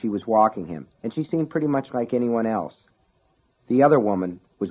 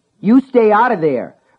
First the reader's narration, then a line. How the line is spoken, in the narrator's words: Brian shouted